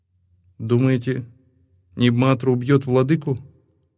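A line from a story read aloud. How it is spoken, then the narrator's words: Quiet question. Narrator (Russian): Тихо спросил Ануон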